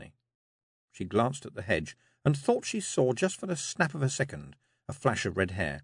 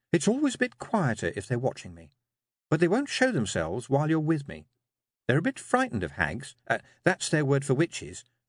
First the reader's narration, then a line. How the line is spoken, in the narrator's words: she added quickly